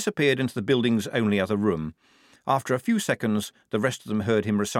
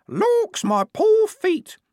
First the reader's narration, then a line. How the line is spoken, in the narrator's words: in varying tones of fingernail screech